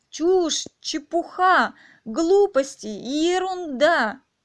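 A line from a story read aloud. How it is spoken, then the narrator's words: Exclamation. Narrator (Russian): воскликнула Алиса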